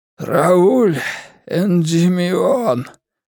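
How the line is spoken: Hoarse rasp. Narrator (Russian): прохрипел он

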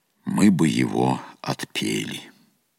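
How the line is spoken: Calm reply. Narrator (Russian): отец-наместник спокойно ответил

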